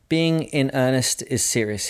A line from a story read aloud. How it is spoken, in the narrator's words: he said